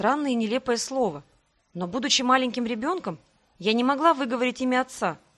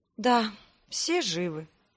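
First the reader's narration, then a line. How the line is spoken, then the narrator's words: Quiet. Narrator (Russian): Тихо обронила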